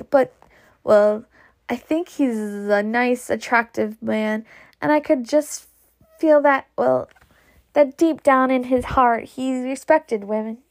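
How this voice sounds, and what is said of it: Character voice with an unidentified accent. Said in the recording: “I don't know what Pity's accent is. I don't know what I gave it to her.”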